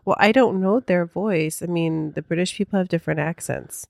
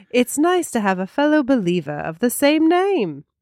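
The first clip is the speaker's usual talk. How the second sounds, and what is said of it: Very posh put-on British accent. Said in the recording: “Now I'm going very posh with my accent.”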